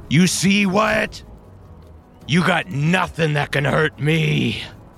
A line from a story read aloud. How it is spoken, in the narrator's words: shout